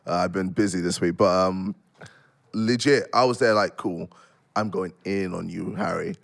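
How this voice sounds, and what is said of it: Strained voice prone to cracking. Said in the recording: “I'm going to voice crack a lot because my voice is fucked.”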